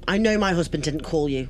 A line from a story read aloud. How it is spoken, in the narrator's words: shouted